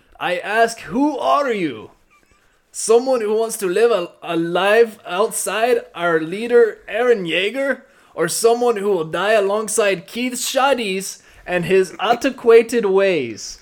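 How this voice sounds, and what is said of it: Bad put-on German-ish accent. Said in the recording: “What a fucking horrible accent. ... God, that's terrible. This is just really bad. ... Was that supposed to be a Japanese accent? ... Wasn't close. It, like, teetered on the edge of, like, Hispanic slash a little bit of German ... the slightest pinch of ... Japanese. It was weird. ... I was going the German way”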